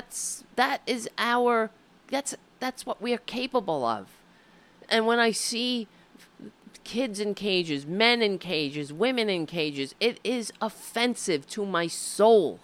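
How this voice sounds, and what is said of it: Tearful, emotional voice. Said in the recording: “I'm getting teary-eyed thinking about it because it always makes me cry”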